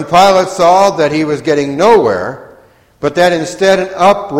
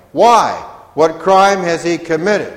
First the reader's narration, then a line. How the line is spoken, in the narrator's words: asked Pilate